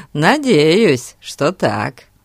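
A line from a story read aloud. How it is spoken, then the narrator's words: Laughing. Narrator (Russian): рассмеялся Фати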